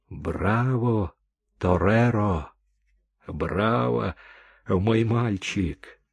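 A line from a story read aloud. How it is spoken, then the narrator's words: Whispered. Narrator (Russian): хосе шептал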